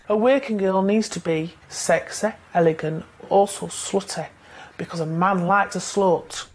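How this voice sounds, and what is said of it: Sheffield English accent. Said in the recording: “they have an accent. They're from... The accent is not that bad. They're from Sheffield.”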